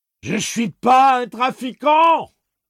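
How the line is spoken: Shouted. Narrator (French): hurla Eddie

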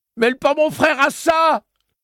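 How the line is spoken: Childish, trembling scream. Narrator (French): hurla Eddie, puéril, et une autre crise de tremblement le traversa

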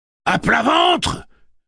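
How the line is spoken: Roaring. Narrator (French): rugit Roland

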